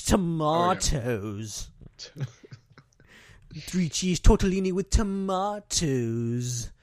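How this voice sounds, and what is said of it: Poor Patrick Stewart impression. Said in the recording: “bad Patrick Stewart impression”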